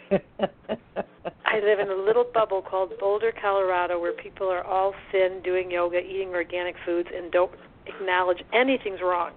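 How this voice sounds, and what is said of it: Detroit accent with a drawl. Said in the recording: “Bit more draw on it. I can hear that West Coast in you. ... my accent is definitely from Detroit.”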